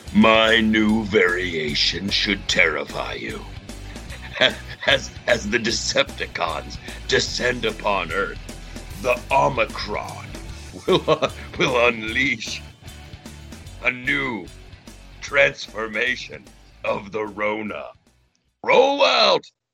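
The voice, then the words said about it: Optimus Prime character voice. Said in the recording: “that was my Optimus Prime impression. It was pretty darn good. It was like he was in the room.”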